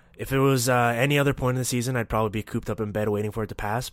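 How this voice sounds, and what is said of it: Nasal, congested voice. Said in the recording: “if my voice sounds nasally throughout the show ... give in to this nasty cold”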